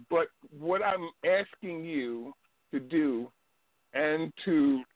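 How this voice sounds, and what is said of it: Speaks with a noticeable accent. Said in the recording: “many times, I hear someone ask about my accent”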